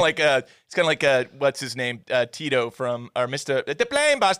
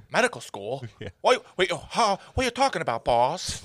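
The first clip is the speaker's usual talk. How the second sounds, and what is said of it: Imitates a movie character's voice. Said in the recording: “That's a pretty good impression of that guy.”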